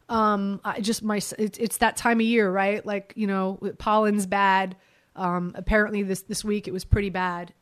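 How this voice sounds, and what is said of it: Congested, stuffed-up voice. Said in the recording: “My sinuses ... I sound really stuffed up ... I'm dealing with some sinuses, but I feel a lot better than I sound”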